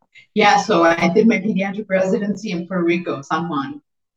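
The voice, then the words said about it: Miami accent. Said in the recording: “a lot of folks say I have an accent ... it's from Miami. This is what people from Miami sound like if they were born and raised there.”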